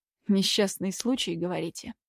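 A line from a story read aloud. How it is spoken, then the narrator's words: Muttered. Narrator (Russian): пробормотал он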